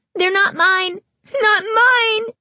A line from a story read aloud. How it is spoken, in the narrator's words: Carly Beth cried